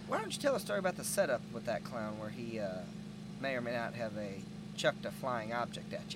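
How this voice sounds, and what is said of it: Southern US accent. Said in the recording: “you have a southern accent. Sounds like you're from Mississippi.”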